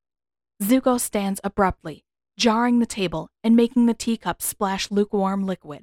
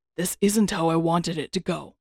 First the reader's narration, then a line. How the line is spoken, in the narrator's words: he murmurs